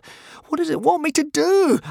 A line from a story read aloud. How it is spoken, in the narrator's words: asked Hiccup frantically